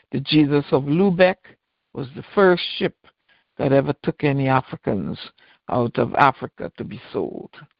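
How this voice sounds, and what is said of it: Melodic accented voice. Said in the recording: “it's your accent, so I get caught up in listening to the melody of your voice”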